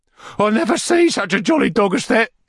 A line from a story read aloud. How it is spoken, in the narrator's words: cried Master Bates